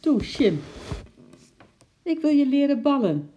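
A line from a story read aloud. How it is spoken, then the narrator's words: Calling up. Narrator (Dutch): riep Lotje naar boven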